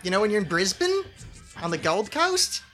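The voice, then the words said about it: Attempted Australian accent. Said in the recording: “I can't do an Australian accent. ... That was better. ... I'm not good at accents.”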